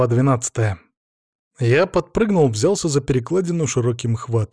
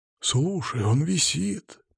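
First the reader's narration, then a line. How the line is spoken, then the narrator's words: Rolling whisper. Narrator (Russian): прокатился шепот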